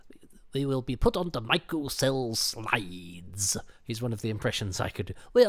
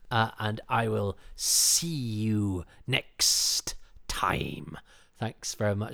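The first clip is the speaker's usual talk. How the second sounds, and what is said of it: Sibilant character voice. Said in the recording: “I turned into the commander from the Ark there, who is almost as sibilant as the... That's my impression of the commander from the Ark”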